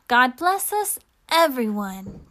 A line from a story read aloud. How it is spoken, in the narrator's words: Tiny Tim cried